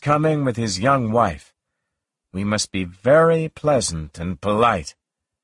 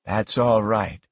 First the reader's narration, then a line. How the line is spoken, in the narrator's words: he said quietly